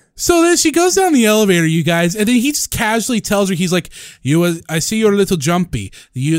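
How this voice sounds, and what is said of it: Usual voice. Nothing is said of it.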